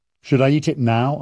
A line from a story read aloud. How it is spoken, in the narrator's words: I asked